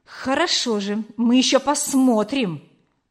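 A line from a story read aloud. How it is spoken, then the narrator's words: Hissed. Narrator (Russian): прошипел Гюга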